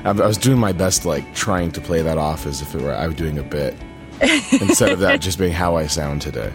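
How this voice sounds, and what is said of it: Husky, losing voice. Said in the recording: “you sound a little husky ... losing his voice”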